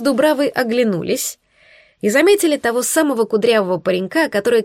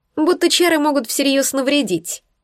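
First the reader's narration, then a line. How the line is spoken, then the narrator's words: Scoffing snort from the back. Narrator (Russian): хмыкнул кто-то с заднего ряда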